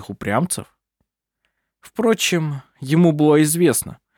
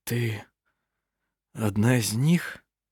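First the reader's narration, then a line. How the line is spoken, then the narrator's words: Whisper. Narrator (Russian): прошептал Эрланд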